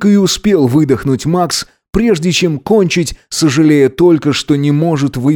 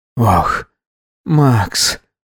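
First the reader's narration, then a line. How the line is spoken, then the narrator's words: Whisper. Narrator (Russian): прошептал он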